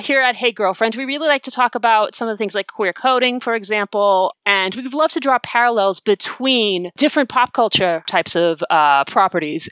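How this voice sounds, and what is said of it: Natural Boston accent. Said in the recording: “I am going to be speaking with my natural accent ... my natural accent, as I am a born and bred Bostonian”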